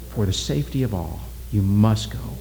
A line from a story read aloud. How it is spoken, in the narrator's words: He leaned toward Oki and whispered